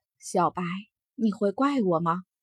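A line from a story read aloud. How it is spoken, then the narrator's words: Sighing. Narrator (Chinese): 惊鸿轻摇头，叹息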